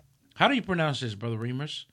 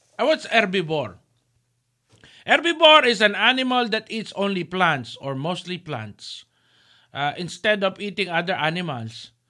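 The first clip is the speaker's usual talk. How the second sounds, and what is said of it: Put-on accent. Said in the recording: “my original accent before I ate too much fries and changed to like this. Now it is my original accent.”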